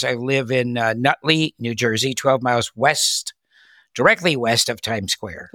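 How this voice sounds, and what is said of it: Generic Midwestern American accent. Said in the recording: “Midwest. ... Sort of generic American accent”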